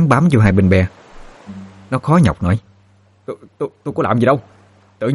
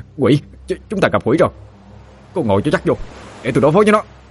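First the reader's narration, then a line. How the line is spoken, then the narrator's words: Alarmed cry. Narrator (Vietnamese): Thằng Chớt vừa nhìn thấy đã la lên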